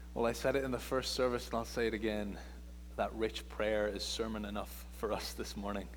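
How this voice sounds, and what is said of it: Irish accent. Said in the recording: “my accent ... some people say I was from South Africa. Some suggested Canada. I heard somebody say Scotland. I'm from Ireland”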